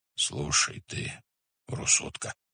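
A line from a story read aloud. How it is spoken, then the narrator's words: Timid request. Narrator (Russian): робко попросил Субудай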